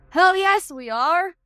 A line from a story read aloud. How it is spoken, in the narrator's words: an internee shouted in response